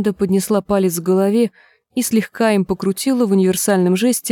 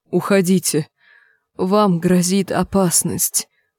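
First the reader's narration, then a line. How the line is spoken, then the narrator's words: Moaning. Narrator (Russian): простонал Нат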